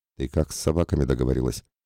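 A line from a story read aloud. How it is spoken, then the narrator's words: Astonished whisper. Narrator (Russian): изумленно прошептал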